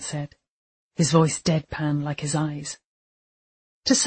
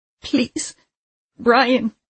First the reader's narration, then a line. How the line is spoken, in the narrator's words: she pleaded